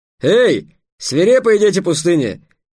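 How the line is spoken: Shouted. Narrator (Russian): крикнул караванщик охранникам

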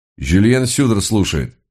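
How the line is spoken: Calm low voice. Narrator (Russian): спокойно произнес довольно низкий голос

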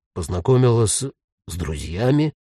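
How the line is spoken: Ghost, uncertain repeating. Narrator (Russian): неуверенно повторил призрак

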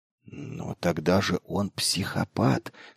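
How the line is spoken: Hissing whisper. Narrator (Russian): свистящим шепотом произнес Мэйхью

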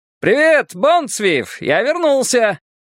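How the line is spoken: Cheerful shout. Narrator (Russian): крикнул разведчик весело

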